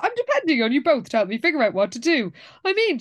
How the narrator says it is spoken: she said with a laugh

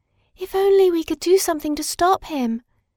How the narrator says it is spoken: sighed the celluloid doll

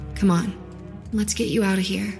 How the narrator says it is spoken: she said gently

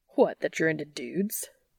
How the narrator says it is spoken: Dean scoffs

